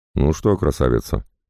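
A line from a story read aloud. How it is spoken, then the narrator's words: Muttered. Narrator (Russian): пробормотал полковник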